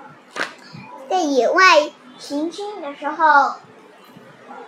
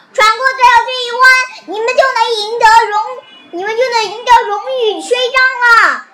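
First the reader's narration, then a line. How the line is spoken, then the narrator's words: Father shouting. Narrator (Chinese): 熊爸爸喊道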